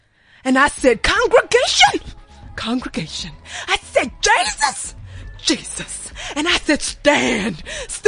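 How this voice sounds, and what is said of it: Preacher voice. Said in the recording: “I know how to put my preacher voice on.”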